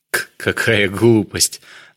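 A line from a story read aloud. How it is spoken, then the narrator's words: Forced laugh. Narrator (Russian): натянуто рассмеялся Самедов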